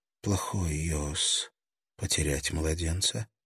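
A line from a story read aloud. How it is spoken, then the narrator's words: Whisper. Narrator (Russian): прошептала она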